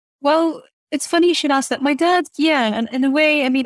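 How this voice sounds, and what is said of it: Hard-to-place international English accent. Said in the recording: “It's such a traveled voice... it's very hard to place, but it's a beautiful speaking voice”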